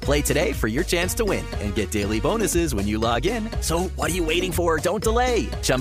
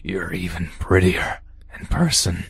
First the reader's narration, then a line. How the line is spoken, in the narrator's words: he wheezed